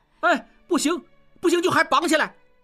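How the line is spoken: Shouting. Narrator (Chinese): 小栓也喊

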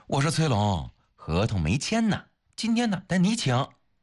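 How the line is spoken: Laughing. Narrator (Chinese): 方薇也笑了

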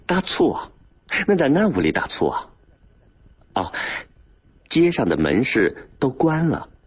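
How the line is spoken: Laughing. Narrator (Chinese): 河南大哥忍不住笑了

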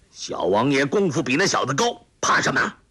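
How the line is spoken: Booming, bell-like voice. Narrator (Chinese): 声若洪钟

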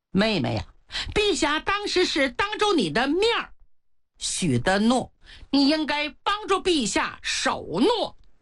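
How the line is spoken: Smiling. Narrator (Chinese): 庆都一笑

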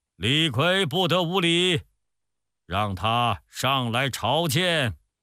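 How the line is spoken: Loud stern rebuke. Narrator (Chinese): 突然听到宫殿上有人大声呵斥说

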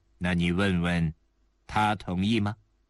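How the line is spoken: Cold. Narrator (Chinese): 希尔埃里冷冷地说

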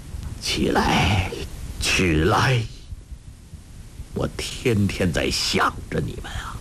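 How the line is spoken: Tearful trembling voice. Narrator (Chinese): 成吉思汗热泪盈眶，颤声道

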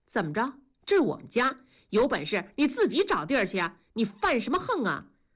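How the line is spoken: Angry. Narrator (Chinese): 怒目而视

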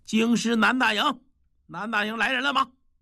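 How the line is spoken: Shout. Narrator (Chinese): 府仓的小头目……喊了一声

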